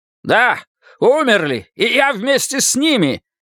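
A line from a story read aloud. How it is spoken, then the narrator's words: Shouted. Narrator (Russian): крикнул Харви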